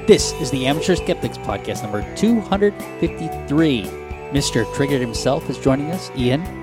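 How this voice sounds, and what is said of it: Dramatic action-movie announcer delivery. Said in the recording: “That opening sounded accent. ... The way you said it was like announcing an action-packed film or something.”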